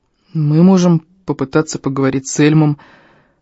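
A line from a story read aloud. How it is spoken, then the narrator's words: Hoarse. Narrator (Russian): хрипло сказал я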